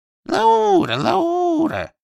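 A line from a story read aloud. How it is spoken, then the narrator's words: Thin little calling voice. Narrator (Russian): стал он звать тоненьким голоском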